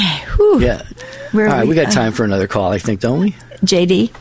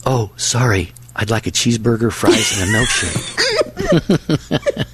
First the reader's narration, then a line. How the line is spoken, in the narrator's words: The man whispered back